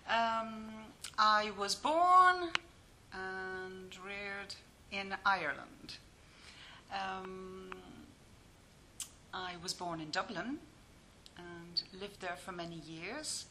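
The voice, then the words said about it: Irish accent. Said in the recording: “as you can hear from my Irish accent”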